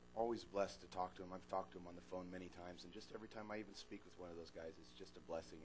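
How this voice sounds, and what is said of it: Slightly raspy, fading voice. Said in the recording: “My voice is going out, so you'll have to forgive me. I might sound like I'm a little raspy”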